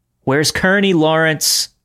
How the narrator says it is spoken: I shouted after him one last time

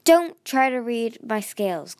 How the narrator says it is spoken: Glory snapped

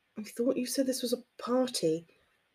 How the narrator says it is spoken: Theo whispered teasingly in her ear

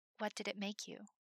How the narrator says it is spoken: whispered

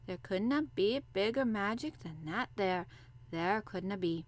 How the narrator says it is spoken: he said slowly

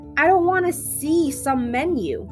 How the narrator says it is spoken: screamed into my face

